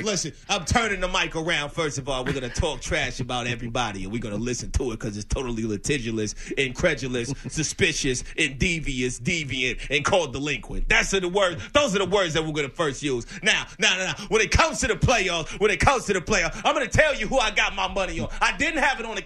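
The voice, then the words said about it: Stephen A. Smith impression. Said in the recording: “Do you do Stephen A? Someone said you do Stephen A.”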